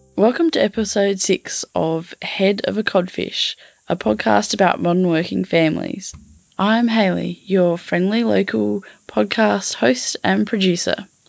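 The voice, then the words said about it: Scratchy, husky voice. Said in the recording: “my voice is a bit scratchy today... the husky voice thing”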